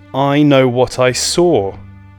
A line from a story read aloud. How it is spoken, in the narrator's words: bellowed Lottie